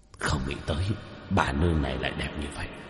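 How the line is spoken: Throaty muttering. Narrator (Vietnamese): hai quỷ vương, trong cổ họng một trận nhấc lên nhấc xuống lẩm bẩm

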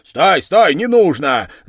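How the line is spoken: Shouted. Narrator (Russian): закричал голова

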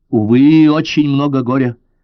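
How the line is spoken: Angry. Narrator (Russian): зло повторила она

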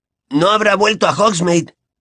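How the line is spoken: Surprised exclamation. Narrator (Spanish): exclamó Ron sorprendido

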